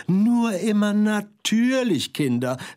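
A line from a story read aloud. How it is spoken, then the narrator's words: Calling out. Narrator (German): rief einer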